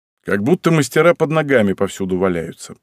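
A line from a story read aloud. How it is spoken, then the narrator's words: Grumble. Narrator (Russian): проворчал я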